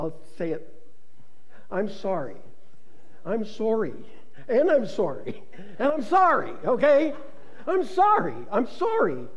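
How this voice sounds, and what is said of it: Canadian accent on the word sorry. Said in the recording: “"sorry" is one of the few words where I still have my Canadian accent.”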